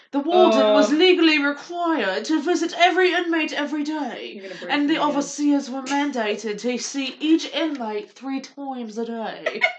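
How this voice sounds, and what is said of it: Put-on British accent. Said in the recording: “I actually did the best British accent I've ever done just now. ... Really good. ... That was actually really good. ... there it went. That was Southern.”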